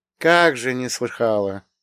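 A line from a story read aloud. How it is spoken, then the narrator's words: Old woman's wry snort. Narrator (Russian): хмыкнула тетушка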